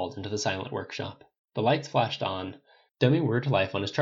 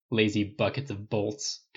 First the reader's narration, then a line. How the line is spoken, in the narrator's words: Tony grumbled